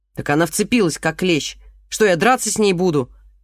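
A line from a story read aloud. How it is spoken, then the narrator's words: Snapping back irritably. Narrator (Russian): огрызнулся Голохватов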